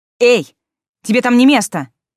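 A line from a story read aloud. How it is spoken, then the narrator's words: Shout. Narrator (Russian): крикнула она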